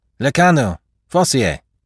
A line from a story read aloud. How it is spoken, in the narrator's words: The sergeant called out